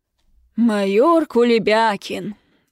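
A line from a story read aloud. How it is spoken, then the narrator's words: Angry bellow. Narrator (Russian): Уяснив, кто виновник дочуркиного плача, гаркнул в потолок мой папа-полковник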